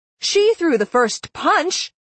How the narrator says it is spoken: I yelled

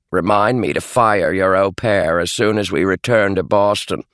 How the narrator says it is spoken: Beatrice grumbled

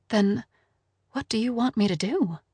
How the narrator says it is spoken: She said in barely above a whisper

